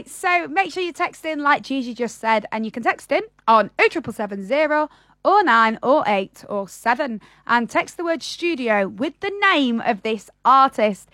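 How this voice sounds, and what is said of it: Northern English accent. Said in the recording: “You're saying that very northern today.”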